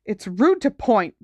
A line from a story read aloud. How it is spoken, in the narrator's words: Ron snapped